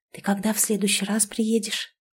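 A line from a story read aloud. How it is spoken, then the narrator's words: Whispered question. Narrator (Russian): Интересуюсь шепотом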